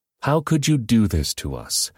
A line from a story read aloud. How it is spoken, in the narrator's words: Abimelech exclaimed